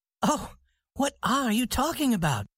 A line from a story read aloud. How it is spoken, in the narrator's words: cried the young lady